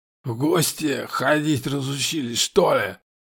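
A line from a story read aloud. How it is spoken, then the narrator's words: Wheezing. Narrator (Russian): Сипел квадратный, обращаясь к Сому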